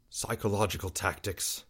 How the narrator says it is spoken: Chris muttered

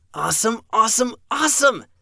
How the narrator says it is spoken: Evan cried out

